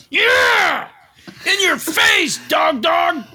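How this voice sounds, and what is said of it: Shouting. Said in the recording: “Why are you shouting”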